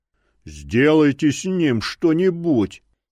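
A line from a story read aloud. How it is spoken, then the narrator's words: Displeased roar. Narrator (Russian): недовольно взревел главный фанатик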